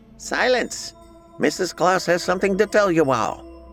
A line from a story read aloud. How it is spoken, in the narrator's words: the squeaky voice of a bad gnome yelled over the gathering commotion